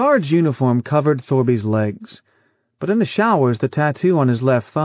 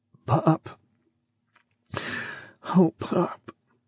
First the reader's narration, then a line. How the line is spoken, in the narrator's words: bit his pillow and whispered brokenly